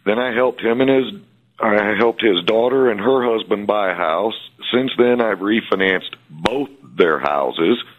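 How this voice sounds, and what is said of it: Southern US North Alabama accent. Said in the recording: “my accent yet, it's a northern accent. That's North Alabama.”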